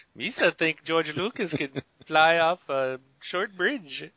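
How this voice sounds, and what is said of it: Jar Jar Binks character voice, accent shifting. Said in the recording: “Jar Jar's Indian? ... you had a little bit of an accent shift”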